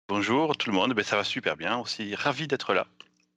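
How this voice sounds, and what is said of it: Southwestern French accent. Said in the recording (French): “tu as un accent du sud-ouest ... quand je parle en français, j'ai un accent du sud-ouest”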